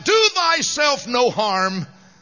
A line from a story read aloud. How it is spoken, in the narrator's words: they cried out